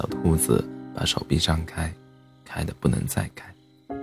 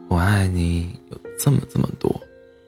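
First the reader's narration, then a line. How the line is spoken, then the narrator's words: Smiling. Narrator (Chinese): 大兔子笑笑的说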